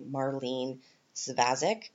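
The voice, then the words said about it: Put-on Canadian accent. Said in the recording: “If I was going to say it in a Canadian accent,”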